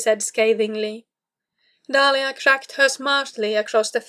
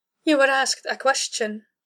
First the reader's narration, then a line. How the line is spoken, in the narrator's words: she said calmly